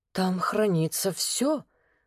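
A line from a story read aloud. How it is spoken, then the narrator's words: Whisper. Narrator (Russian): прошептала Елена Владленовна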